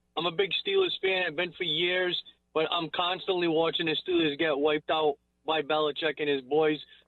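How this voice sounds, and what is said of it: New England accent. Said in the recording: “you heard that accent ... I'm a big fan of New England accents”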